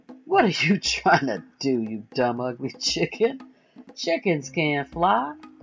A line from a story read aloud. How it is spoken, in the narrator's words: The chickens laughed at the eagle, saying